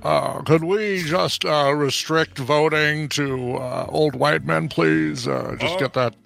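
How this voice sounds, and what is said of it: Mitch McConnell impression. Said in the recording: “let's do this in a Mitch voice. ... you do that way too well. ... a good Mitch McConnell voice. ... That is a great one.”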